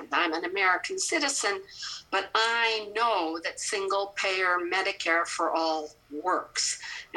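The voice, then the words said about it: Canadian accent. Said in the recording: “you can hear my Canadian accent.”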